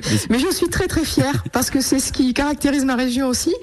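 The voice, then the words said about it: Regional southern French accent. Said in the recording (French): “j'ai un très léger accent ... Oui, léger.”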